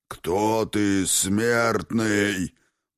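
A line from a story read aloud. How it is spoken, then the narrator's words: Roaring fiery monster. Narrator (Russian): проревела огневеющая пасть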